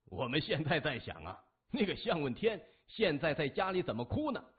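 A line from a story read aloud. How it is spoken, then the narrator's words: Laughing. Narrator (Chinese): 李爽……笑着说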